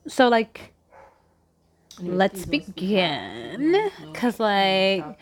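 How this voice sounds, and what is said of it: Grating valley girl voice. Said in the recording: “white girl voice ... Like, you're irritated. You're literally grating ... my Paris Hilton voice”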